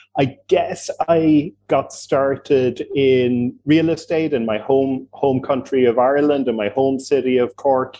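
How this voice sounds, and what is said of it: Irish accent. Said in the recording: “as you gathered from the accent, I'm Irish.”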